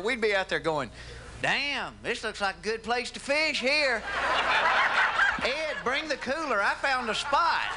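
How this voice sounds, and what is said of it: Southern American accent. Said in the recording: “southern accent ... You could take a southerner”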